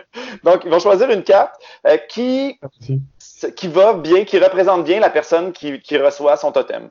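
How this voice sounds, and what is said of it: Québécois French accent. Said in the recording (French): “on remarque mon, mon, mon, accent du Québec”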